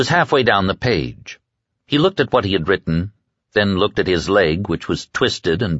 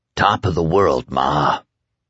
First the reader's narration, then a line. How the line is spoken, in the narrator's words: croaked